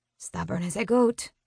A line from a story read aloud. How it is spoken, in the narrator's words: she mutters under her breath in Spanish